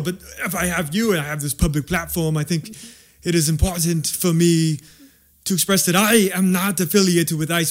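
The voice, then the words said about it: Slight foreign accent. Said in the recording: “You may notice I have a slight accent ... It's coming through.”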